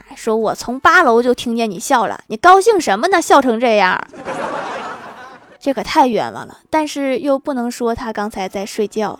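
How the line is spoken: Scolding. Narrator (Chinese): 班主任就骂

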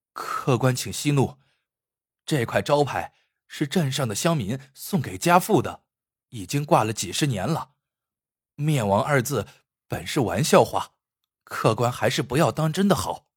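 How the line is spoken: Hurried, placating. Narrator (Chinese): 年轻人急忙劝阻说

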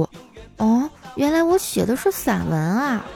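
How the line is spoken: Girl muttering softly. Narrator (Chinese): 被念作文的女生愣了一下，小声嘀咕

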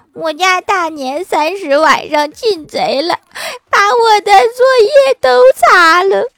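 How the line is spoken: Crying. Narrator (Chinese): 欢喜哭着对老师说

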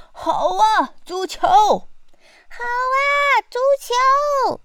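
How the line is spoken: Pirates shouting. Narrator (Chinese): 海盗们大叫

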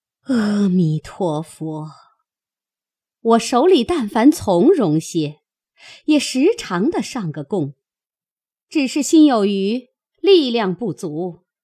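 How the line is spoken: Sighing woman. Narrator (Chinese): 赵姨娘叹口气道

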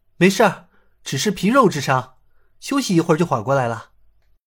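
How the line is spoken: Soft, reassuring. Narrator (Chinese): 尹建平 轻声道

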